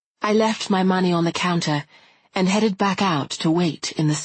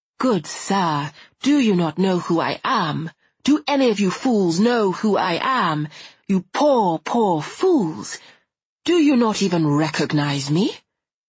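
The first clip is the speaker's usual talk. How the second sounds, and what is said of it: Comically refined English accent. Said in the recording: “talking in a comically refined English accent”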